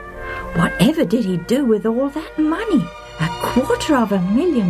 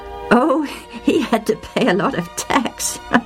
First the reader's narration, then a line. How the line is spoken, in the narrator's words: said, laughing